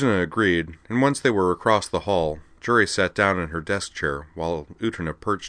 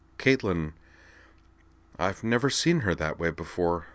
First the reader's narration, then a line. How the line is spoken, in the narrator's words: Jury said, and she sounded actually shaken, if she only showed it faintly